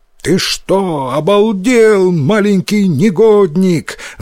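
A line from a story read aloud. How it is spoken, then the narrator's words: Yelling angrily. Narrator (Russian): заорал он на Йотаро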